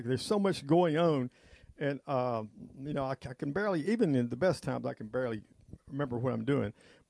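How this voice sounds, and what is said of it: Hoarse voice. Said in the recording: “I'm hoarse”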